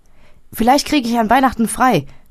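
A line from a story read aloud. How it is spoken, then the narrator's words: Called while leaving. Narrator (German): rief er, als er ging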